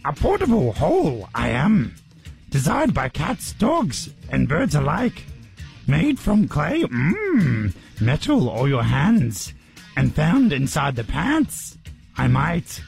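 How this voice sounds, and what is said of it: Yoda impression. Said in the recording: “it's actually easier if you do it in a Yoda voice... I never had a great Yoda accent”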